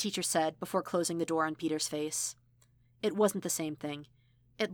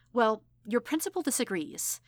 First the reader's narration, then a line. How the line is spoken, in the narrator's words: said cheerfully